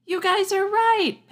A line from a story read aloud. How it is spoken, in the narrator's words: Pippa shouted